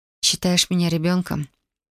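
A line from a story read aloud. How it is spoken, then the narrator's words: Whisper. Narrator (Russian): Шепнула я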